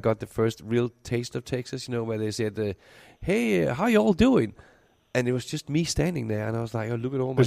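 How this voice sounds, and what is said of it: Danish accent. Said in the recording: “I'm keeping my original Danish accent. ... You still have that intact.”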